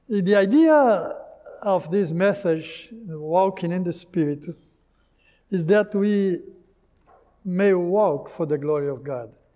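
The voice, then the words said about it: Portuguese-accented English. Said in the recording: “my Portuguese accent”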